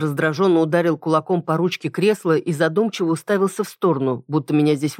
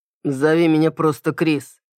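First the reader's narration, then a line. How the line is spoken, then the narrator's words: Grumbled mumble. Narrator (Russian): буркнул он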